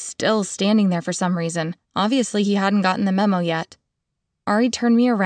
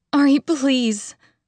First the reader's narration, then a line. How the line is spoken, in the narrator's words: begged